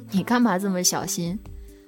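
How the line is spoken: Laughing. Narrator (Chinese): 熊笑，说

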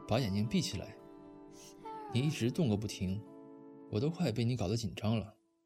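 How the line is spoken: Sighing. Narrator (Chinese): 漠北叹了口气，说

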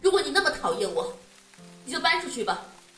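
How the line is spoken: Fed-up loud shout. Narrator (Chinese): 我受不了了，大声的喊了出来

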